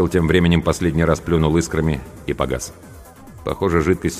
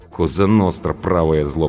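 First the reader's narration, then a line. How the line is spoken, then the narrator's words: Grumbling. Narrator (Russian): пробурчала Анка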